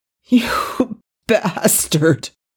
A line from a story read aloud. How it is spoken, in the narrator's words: Daniel groaned, furious and betrayed